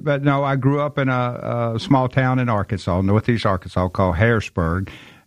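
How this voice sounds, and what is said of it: Southern American accent. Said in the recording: “people are going to love your accent as soon as you begin to speak ... I'm from Memphis, Tennessee”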